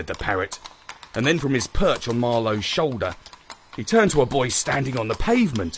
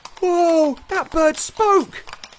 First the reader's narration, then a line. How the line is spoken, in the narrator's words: exclaimed the little chap